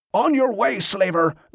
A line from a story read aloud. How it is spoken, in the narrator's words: Liam shouted